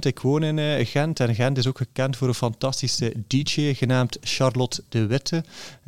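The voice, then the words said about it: Ghent Flemish accent. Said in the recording (Dutch): “je hoort misschien aan mijn eh, accent, maar ik ben van Gent”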